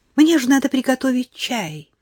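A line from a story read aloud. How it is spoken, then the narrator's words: Hurried announcement. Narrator (Russian): на ходу объявив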